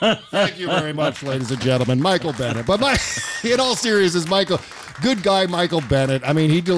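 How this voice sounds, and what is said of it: Usual voice. Nothing is said of it.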